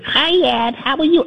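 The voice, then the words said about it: Childlike baby voice. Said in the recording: “she would like use this baby voice.”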